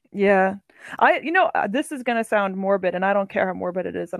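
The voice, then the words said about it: Non-local accent. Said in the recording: “Anytime people hear my accent over here”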